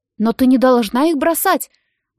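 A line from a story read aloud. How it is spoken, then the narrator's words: Compassionate exclamation. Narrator (Russian): воскликнула сострадательная мисс Смит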